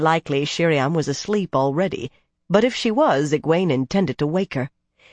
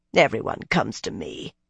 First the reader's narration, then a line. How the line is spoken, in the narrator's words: the woman muttered